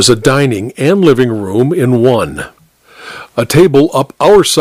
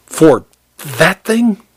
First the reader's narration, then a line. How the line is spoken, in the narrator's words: he spat